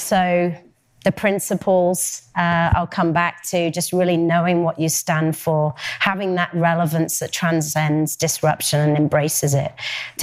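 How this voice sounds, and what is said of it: Sniffly, congested voice. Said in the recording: “sorry for my snivels. ... I've got a bit of a cold.”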